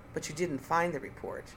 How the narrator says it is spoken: I said icily

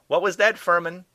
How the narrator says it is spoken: Doe called out

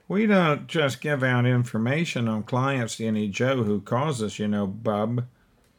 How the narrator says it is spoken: the sneer on the secretary's face when she said

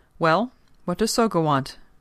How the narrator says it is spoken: Masahira asked curtly

